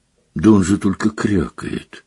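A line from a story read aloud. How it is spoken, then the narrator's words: Weak objecting voice. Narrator (Russian): слабым голосом возразил премьер-министр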